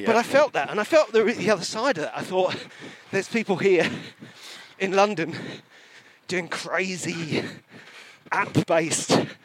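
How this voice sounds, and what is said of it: Southeast English accent. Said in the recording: “there wasn't really anyone from the southeast ... when he heard my accent”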